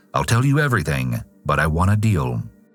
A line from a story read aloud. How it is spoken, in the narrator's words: the cold-blooded criminal calmly told detectives